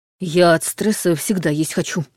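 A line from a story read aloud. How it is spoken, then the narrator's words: Mumbling with full mouth. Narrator (Russian): промямлил тот с набитым ртом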